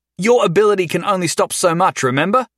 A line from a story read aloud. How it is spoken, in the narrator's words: Jason yelled at her